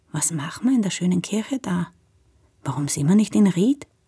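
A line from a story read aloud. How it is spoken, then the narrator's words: Very quiet, near whisper. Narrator (German): meint sie ganz leise, fast flüsternd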